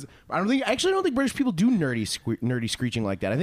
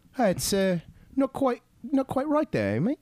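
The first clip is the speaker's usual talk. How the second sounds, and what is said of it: Mock British accent. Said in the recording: “I'm sure my British accent is shitty ... I think they just usually be like”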